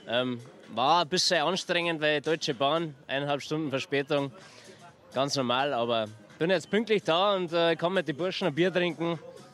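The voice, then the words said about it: Mild Upper Bavarian dialect. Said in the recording (German): “Ich bin aus dem tiefsten Oberbayern angereist, Waging am See, Nähe Salzburg, eher schon Österreich. Ich glaube, man hört es ein bisschen am Dialekt.”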